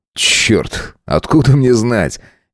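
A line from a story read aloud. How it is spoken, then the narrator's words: Nervous giggle. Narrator (Russian): нервно хихикнул Сайлос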